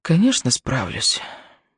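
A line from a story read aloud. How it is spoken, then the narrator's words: Whisper into phone. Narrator (Russian): прошептала она трубке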